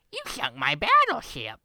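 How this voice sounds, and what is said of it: Goofy cartoon character voice. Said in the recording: “do a goofy cartoon voice ... he's just kind of like a Sid the Sloth type voice ... That was a good impression”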